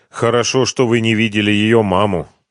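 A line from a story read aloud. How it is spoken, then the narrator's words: Grim. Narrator (Russian): мрачно изрек Ренат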